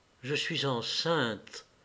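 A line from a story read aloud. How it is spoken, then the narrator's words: Murmured slowly. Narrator (French): murmura-t-elle lentement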